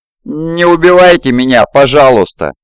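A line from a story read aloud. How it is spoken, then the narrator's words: Pleading. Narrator (Russian): взмолился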